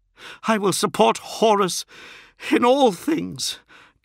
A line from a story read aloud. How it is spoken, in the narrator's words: gasped Fulgrim